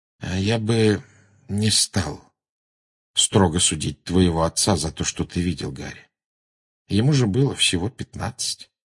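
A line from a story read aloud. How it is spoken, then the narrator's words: Quiet. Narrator (Russian): Люпин негромко сказал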